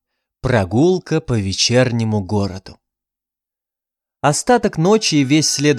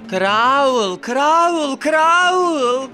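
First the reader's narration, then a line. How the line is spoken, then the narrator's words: Wild shriek. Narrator (Russian): Визжала она диким голосом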